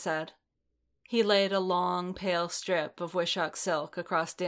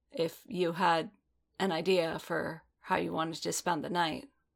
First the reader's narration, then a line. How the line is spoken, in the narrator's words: he said, his voice hoarse